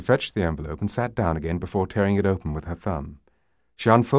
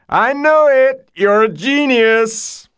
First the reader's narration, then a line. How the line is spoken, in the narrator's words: He broke into a whining, fast imitation of a country and western square dance, complete with calls of